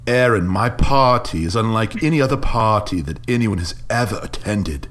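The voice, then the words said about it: Imitates another person's accent. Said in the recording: “do a little bit of his accent ... That's the Jason Deere. That's my Jason Deere.”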